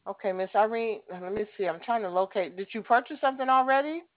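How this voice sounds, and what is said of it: Southern American accent. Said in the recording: “You must be in the South ... I love your accent.”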